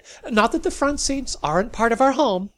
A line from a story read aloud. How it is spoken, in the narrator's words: Hastily added